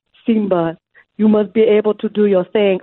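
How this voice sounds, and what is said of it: Bad put-on Jamaican accent. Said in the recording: “just an average Jamaican accent ... And when I tell you average, it was so incredibly bad ... it was so bad ... it was awful”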